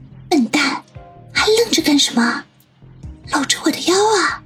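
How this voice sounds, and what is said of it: Barely audible whisper. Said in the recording (Chinese): “用微不可闻的声音说”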